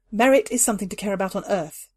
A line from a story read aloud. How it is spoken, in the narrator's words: she said finally